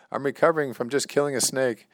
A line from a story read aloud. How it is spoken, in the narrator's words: to which my son yelled back